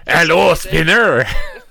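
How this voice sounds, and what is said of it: Mock French accent. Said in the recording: “class, who is speaking in a French accent”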